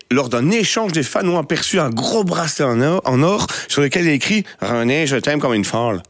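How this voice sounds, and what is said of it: Put-on slight Québécois French accent. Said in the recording (French): “je voulais faire l'accent pour la chronique ... l'accent un petit peu québécois”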